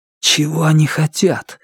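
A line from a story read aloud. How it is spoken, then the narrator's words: Anxious whisper. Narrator (Russian): взволнованно прошептал Звон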